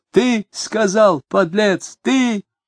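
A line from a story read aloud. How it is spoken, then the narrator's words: Loud cursing. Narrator (Russian): Он громко выругался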